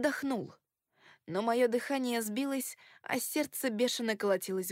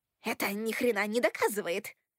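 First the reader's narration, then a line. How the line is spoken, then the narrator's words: Growling. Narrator (Russian): прорычал Фрэнки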